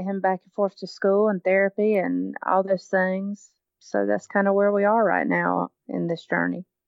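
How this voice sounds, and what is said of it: Southern American accent. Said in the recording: “an American accent ... with a Southern American accent”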